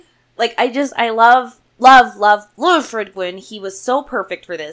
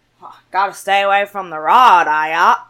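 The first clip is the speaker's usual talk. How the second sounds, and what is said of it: Imitation of Fred Gwynne's accent. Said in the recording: “his main accent, I'm reading the book in his accent.”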